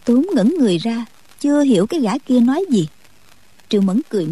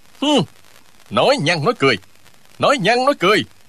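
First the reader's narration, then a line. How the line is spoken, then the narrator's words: Furious shout. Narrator (Vietnamese): Người kia cả giận quát lên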